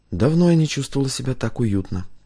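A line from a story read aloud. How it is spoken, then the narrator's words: Quiet. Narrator (Russian): тихо проговорила Кристина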